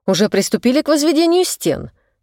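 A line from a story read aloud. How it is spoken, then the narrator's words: Offended tone. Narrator (Russian): обиженно произнес риэлтор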